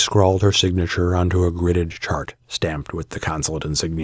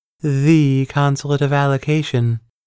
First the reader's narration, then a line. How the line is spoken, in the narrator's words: Chandra intoned